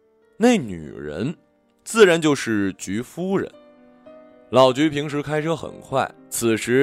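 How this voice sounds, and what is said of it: Usual voice. Nothing is said of it.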